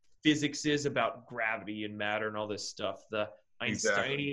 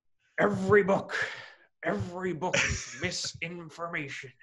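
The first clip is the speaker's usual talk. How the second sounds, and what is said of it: Imitates another person's voice. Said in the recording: “My best impersonation I got. ... I tried to channel him there.”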